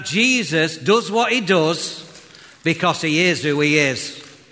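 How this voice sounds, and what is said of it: Attempted impression that sounds Welsh. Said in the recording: “Your best John Wayne accent ... I never knew John Wayne were Welsh”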